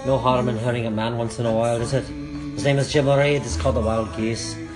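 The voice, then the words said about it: Put-on Scottish accent. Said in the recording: “I'm gonna do another 3.5 minutes with my Scottish accent”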